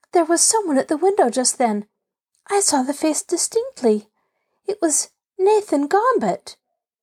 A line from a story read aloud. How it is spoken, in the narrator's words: gasped